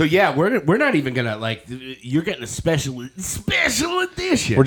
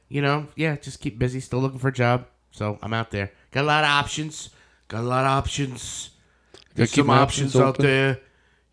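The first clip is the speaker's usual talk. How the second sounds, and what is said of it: Imitates another person's voice, badly. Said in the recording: “worst Trump impression ever”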